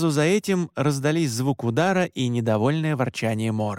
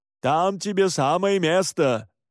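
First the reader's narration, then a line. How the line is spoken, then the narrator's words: Mocking shout. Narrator (Russian): насмешливо выкрикнул Александр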